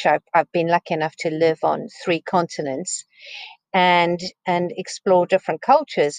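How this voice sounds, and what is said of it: South African accent. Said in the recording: “You could probably gather from the accent that I'm not English... I grew up in South Africa”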